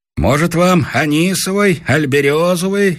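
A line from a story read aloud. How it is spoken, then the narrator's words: Innkeeper shouting across bar. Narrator (Russian): крикнул нам из-за стойки трактирщик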